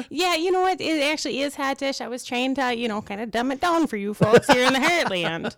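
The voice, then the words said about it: Slight Minnesota accent. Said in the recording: “I get a little hint of an accent. ... I'm from Minnesota.”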